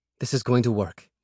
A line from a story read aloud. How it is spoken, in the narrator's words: muttered to himself